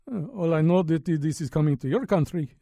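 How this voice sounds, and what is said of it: Put-on Russian accent. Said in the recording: “Actually, he spoke Russian. Why am I doing him in an accent?”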